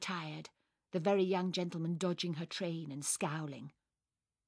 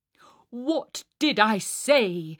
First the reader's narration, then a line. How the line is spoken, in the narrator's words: shouted the Herr Professor under cover of tumultuous applause